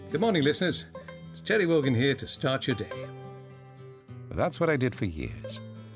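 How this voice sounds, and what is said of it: Irish accent. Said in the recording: “with an Irish accent”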